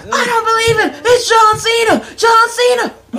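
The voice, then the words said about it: Imitated commentator, southern accent. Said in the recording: “southern accent ... that is a southern accent ... I'm trying to do his accent”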